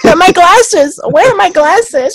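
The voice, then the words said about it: Brilliant impression of Alma. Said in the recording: “That impression of Alma, that was brilliant.”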